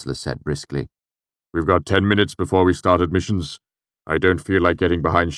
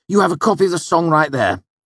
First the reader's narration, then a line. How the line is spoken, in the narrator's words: Ambrose said hotly